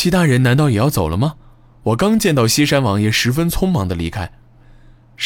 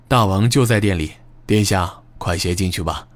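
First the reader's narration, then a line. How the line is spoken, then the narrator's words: Soft, gentle smile. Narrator (Chinese): 带着温和的微笑，小声说道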